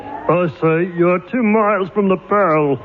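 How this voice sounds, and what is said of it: Man impersonating an envelope. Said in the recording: “A man doing an impression of an envelope.”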